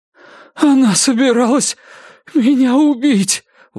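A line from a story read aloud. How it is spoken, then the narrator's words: Breathless. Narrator (Russian): выдохнула Клавдия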